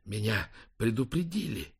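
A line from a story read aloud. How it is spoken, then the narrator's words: Breathless strained voice. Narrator (Russian): выдавил Лэнгдон, едва дыша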